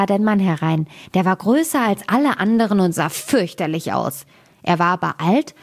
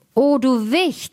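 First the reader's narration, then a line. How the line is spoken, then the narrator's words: Calling out. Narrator (German): rief er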